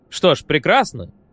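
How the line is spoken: Cheerful. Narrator (Russian): весело сказал Холл

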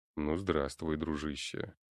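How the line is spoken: Deep rumbling bass. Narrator (Russian): пророкотал он своим басом

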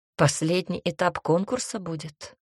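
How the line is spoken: Snorting chuckle. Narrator (Russian): хмыкнул Клаус

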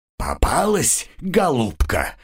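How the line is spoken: Triumphant growl. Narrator (Russian): торжествующе прорычал Вейс

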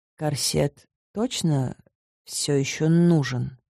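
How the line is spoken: Unsure mutter. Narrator (Russian): Неуверенно пробормотала я

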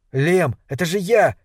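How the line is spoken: Shouting. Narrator (Russian): закричал Кэл

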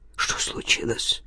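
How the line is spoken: Old man's whisper. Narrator (Russian): прошептал старик

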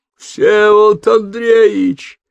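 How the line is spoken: Roaring servant. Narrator (Russian): взревел лакей

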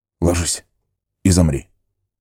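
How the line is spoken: Whispered command. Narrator (Russian): шепотом приказал Арагорн

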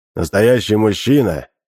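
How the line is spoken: Firm voice. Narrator (Russian): твердым голосом произнес Гамлет

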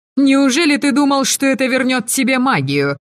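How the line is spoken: Furious roar. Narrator (Russian): взревела вслед ему Авена

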